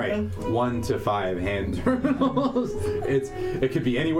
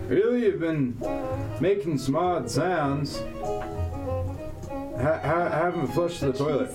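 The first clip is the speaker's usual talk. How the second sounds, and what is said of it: Put-on Southern accent. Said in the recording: “you hear in a southern accent”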